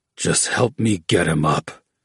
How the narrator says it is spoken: growled, his words made of dripping spittle

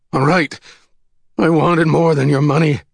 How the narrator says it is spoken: the man wailed

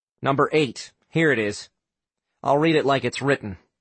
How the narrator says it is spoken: Sam said

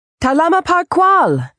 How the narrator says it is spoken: she shouted in the Tito's native language

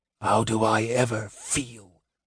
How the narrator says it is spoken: whispered Raistlin bitterly

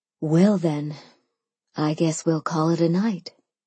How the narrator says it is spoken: Sophia sighed

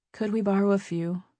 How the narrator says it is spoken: Stevie said quietly

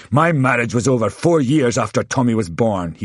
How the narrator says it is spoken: he spat

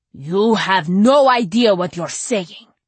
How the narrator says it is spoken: he growled

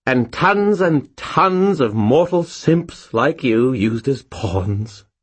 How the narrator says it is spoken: Bob sighed happily

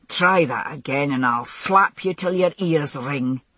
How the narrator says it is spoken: he growled

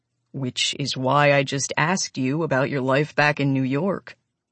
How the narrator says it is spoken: points out calmly

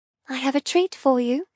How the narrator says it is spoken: I whisper

